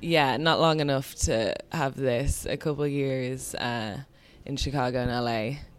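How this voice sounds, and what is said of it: Slight American accent. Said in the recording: “I just have an American accent. ... A slight bit.”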